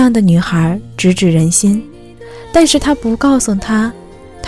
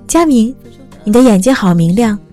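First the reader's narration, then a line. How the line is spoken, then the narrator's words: Smiling over loud music. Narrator (Chinese): 他透过喧嚣的音乐和烟雾，笑着对她说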